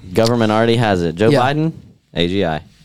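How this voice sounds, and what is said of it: Imitates another person's voice. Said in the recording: “that was actually really good. ... That's a great impression. ... That was good.”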